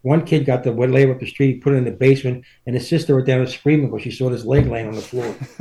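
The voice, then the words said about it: Philadelphia accent. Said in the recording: “I just appreciate hearing his accent. It's kind of taking me home, that Philly accent.”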